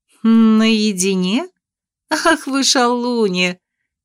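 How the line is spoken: Unabashed teasing laugh. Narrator (Russian): рассмеялась без малейшего смущения несносная землянка

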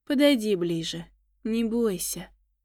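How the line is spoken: Gentle, as to child. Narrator (Russian): ласково, будто ребенку сказал Дагар

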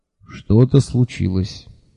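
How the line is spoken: Calm. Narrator (Russian): спокойно кивнул Лонли Локли

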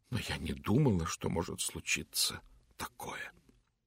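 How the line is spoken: Very quiet. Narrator (Russian): совсем тихо она добавила

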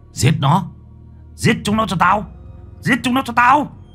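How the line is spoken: Shouting. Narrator (Vietnamese): Hải hét lên

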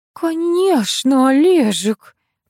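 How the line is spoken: Mumbling. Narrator (Russian): промямлила мать

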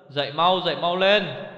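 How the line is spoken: Loud call. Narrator (Vietnamese): lớn tiếng gọi Tuyết

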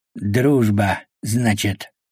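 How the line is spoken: Fisherman speaks through teeth. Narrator (Russian): процедил рыбак

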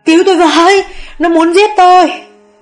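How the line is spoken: Screaming from inside. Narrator (Vietnamese): Bên trong mụ Hường thét lên

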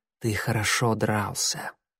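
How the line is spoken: Whisper. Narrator (Russian): прошептала она и добавила

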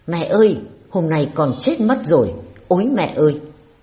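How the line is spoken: Exclamation from behind. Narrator (Vietnamese): Phía đội hình đằng sau có ai đó thốt lên

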